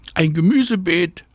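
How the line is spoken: Calling back. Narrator (German): ruft Anna zurück

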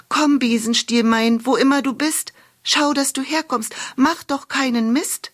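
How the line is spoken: Calling out chant. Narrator (German): rief sie

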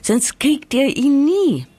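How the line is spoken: Calling out. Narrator (German): ruft sie

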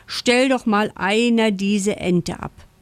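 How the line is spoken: Frog's grim growl. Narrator (German): knurrt der Frosch Ferdinand grimmig

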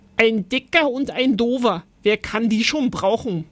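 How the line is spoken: Roared. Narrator (German): brüllte Oskar

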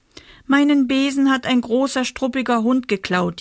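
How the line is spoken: Whining little witch. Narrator (German): jammert die kleine Hexe

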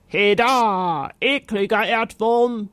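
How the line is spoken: Knight roaring. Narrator (German): brüllte der Ritter

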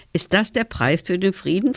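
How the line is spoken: Plain. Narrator (German): fragte Tom

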